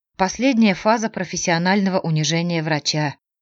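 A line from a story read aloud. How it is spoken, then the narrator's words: Sighed. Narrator (Russian): вздохнула она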